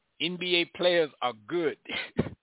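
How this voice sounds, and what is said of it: Poorly done put-on accent. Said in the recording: “in my best accent ... That's a bad accent.”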